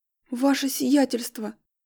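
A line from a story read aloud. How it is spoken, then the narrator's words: Hoarse woman. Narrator (Russian): хрипло произнесла женщина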